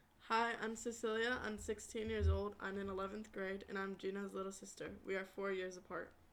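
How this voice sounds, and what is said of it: Flat, robotic-sounding delivery. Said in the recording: “do you sound like a robot?”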